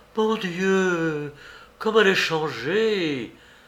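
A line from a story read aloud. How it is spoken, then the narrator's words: Mother's exclamation. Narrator (French): s'écria la mère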